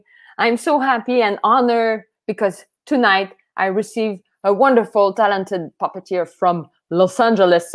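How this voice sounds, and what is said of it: French accent. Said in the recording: “I say it with my French accent.”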